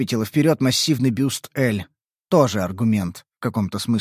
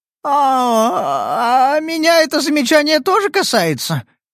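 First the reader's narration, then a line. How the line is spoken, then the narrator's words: Embarrassed babbling. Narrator (Russian): смущенно пролепетала Тайха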